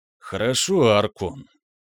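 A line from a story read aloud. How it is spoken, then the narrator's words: Long drawn sigh. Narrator (Russian): протяжно вздохнул познающий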